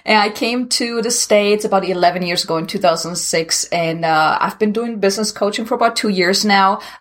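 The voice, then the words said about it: German accent. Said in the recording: “originally I'm from Germany, so if anyone is wondering where this accent is coming from, now you know.”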